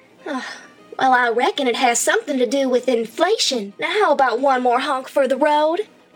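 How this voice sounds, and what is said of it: Clown character with Southern accent. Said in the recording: “why does she have a southern accent? ... The southern accent is not what I expected for a clown.”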